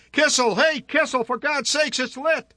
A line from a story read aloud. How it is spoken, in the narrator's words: Someone called out